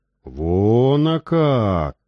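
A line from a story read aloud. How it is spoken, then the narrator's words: Respectful, sighing. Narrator (Russian): С уважением в голосе произнесла она и вздохнула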